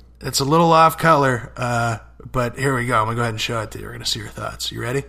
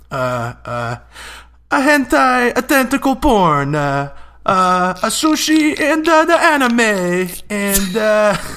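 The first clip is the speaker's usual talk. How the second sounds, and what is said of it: Exaggerated put-on Japanese accent. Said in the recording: “I can do a pretty hilarious Japanese accent ... It's a little bit racist.”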